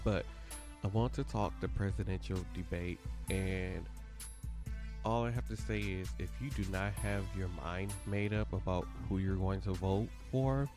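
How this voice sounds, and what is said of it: Voice affected, congested. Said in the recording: “Excuse my voice a little bit. My allergies are still bothering me quite a lot.”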